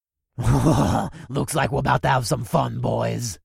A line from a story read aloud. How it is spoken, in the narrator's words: cackled